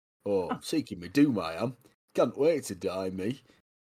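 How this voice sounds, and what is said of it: Broad northern English accent. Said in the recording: “Got like a broad northern accent.”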